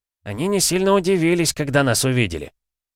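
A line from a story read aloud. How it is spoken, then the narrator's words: Grumbled. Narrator (Russian): проворчал Олег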